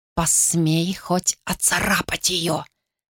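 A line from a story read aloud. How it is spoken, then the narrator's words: Hissed. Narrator (Russian): прошипела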